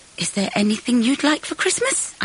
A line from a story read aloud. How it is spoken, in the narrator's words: I said desperately